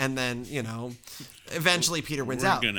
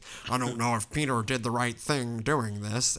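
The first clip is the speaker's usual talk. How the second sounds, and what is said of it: Imitates another person's voice. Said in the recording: “I don't know why I'm doing my Jamie Heineman voice.”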